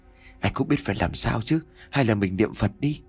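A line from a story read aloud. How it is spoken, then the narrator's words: Trembling voice. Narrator (Vietnamese): Anh Hiếu giọng run rẩy không kém tôi mà nói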